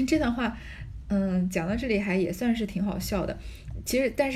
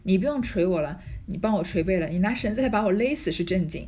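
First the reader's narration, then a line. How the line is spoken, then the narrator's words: Breathless woman. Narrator (Chinese): 林黛玉喘了半晌，说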